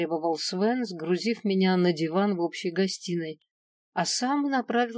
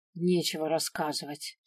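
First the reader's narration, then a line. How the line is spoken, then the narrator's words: Sulky grumble. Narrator (Russian): проворчал, насупившись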